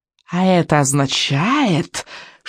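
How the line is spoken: Silky witch's voice. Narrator (Russian): шелковым голосом вступила ведьма

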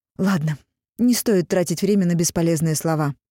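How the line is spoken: Sharp cutting-off. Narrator (Russian): резко оборвала Дагни

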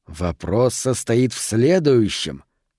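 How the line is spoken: Thoughtful drawl. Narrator (Russian): задумчиво протянул Харпер

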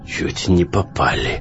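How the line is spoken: Hoarse voice. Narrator (Russian): хриплым голосом поведал ему Сток

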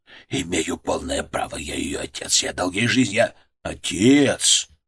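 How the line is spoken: Quiet. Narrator (Russian): Мое слово прозвучало тихо

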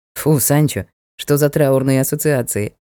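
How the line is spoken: Amused snort. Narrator (Russian): хмыкнул Ник

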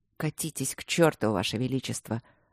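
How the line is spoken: Angry mutter. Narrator (Russian): зло пробормотал Люк

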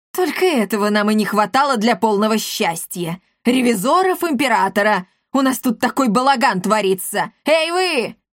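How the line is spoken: Sharp scolding shout. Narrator (Russian): прикрикнула она на притихших воспитанников

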